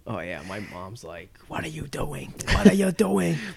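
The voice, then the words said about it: Shifts from Filipino to Jewish accent. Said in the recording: “she turned from Filipino accent to a Jewish accent?”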